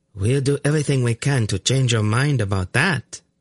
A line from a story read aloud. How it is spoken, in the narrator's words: Vela said, in a chillingly sweet voice